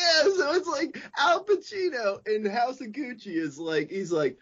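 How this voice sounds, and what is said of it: Usual voice. Nothing is said of it.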